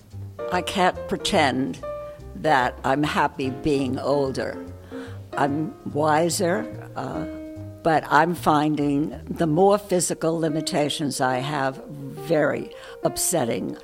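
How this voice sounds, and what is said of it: New York accent. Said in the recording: “You can tell by my accent that I'm from New York.”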